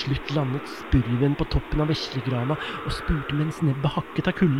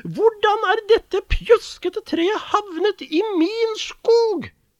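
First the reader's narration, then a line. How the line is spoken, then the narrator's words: Shrieked. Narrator (Norwegian): hylte hun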